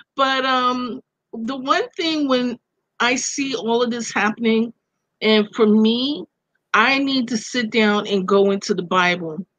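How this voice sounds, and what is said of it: Brooklyn accent. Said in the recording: “You could hear the Brooklyn in her accent”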